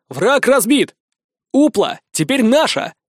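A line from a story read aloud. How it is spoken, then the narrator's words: Loud, projecting to crowd. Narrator (Russian): Стараясь говорить громко, чтобы все меня услышали, начал я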